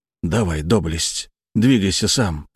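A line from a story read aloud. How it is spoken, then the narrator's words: Hoarse wheeze. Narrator (Russian): просипел я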